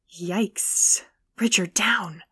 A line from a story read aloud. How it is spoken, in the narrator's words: Kyle embarrassingly grumbled through his teeth